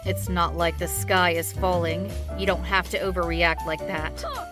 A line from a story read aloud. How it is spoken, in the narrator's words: he replied very coldly